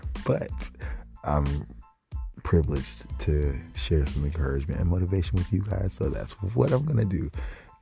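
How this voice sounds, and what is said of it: Weak, tired-sounding voice. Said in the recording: “I'm a tad exhausted, and my voice is not really there”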